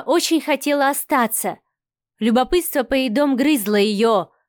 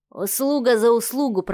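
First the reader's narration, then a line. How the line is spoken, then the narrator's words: Muttered. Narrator (Russian): пробормотал Милов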